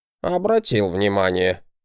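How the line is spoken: Snorting. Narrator (Russian): хмыкнул Вирдман

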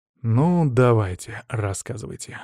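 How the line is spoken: Sighing. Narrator (Russian): вздохнул я

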